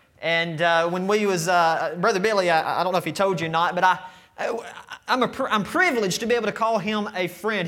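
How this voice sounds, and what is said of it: Georgia Southern US accent. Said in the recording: “my Georgia accent”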